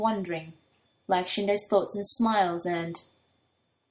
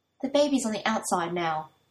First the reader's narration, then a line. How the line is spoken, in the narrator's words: Toya snaps